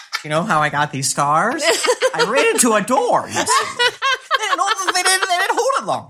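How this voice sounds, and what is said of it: Joker character voice impression. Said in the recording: “Was that a good impression? ... I was pretty good. ... I feel like it was.”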